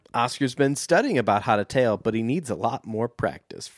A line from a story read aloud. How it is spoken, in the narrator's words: Frank chuckled